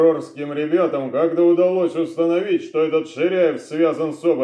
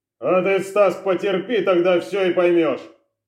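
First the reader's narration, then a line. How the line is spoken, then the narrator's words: General barking. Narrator (Russian): рявкнул генерал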